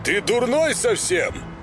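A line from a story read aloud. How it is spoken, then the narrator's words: Shout. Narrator (Russian): крикнул он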